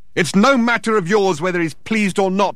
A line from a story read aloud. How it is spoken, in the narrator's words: shouted Thor, disturbing the foundations of the building once more